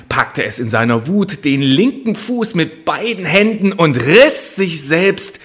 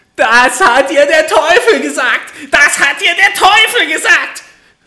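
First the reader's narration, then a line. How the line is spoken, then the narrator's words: Furious screaming. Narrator (German): schrie das Männlein und stieß mit dem rechten Fuß vor Zorn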